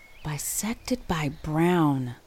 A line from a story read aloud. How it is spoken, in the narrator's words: Cynthia murmured beside Lisa